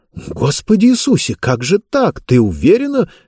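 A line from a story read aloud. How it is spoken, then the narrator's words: Exclamation. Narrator (Russian): воскликнула Дениса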